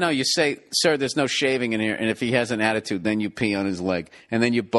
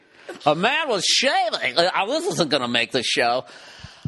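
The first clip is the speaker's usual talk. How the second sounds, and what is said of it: Imitates a TV gossip reporter. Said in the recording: “my TMZ impression.”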